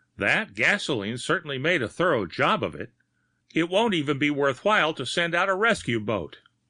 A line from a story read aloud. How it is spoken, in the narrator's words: one of them exclaimed